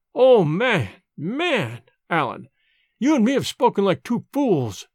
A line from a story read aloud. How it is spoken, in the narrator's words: he cried